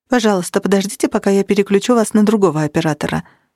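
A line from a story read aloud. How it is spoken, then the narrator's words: Quick speech. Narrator (Russian): быстро проговорил голос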